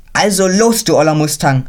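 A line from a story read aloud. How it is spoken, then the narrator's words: Ecstatic shout. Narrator (German): schrie Konrad außer sich vor Freude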